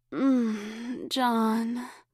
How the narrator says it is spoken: Elizabeth moaned

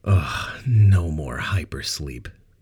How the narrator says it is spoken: Ben groaned

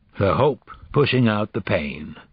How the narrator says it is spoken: Rhyme said

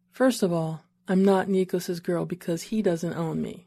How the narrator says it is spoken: she said, and despite her smile, her tone was serious

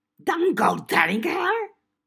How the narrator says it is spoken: Gashwad screeched

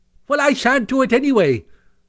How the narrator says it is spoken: cried Toad, getting excited

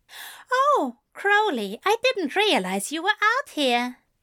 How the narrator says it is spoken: Alistair said brightly

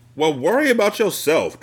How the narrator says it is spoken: Tracy hollered

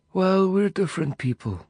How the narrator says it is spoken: he said flatly

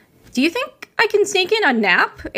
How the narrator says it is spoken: Ava said excitedly

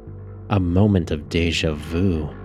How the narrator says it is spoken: she mumbled

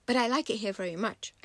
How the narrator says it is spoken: I said quickly

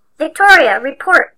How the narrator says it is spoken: shouted Elderby

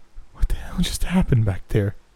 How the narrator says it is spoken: Janelle asked in a shaky voice

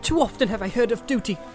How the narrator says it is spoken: she cried

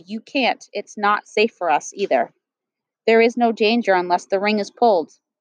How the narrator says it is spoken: I said flatly

